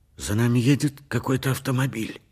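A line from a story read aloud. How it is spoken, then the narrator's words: Hoarse voice. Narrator (Russian): хриплым голосом произнес Поль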